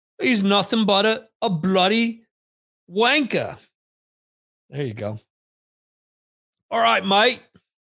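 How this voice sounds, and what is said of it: Exaggerated put-on British accent. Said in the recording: “teach me different British accents... The stupid British accent for the night.”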